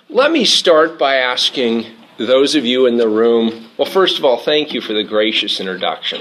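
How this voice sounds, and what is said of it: Voice failing, hoarse. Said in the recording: “I'm sort of losing my voice tonight.”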